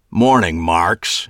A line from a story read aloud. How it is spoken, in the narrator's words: he growled